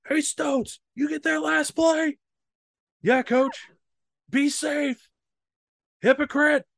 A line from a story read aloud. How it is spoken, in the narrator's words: he just yells up